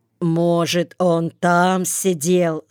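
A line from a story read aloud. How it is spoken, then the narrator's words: Plain. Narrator (Russian): сказал Зорих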